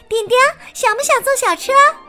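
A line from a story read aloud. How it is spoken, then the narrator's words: Group shouting together. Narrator (Chinese): 他们一起喊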